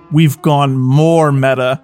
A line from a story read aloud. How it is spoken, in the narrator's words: Theodore groaned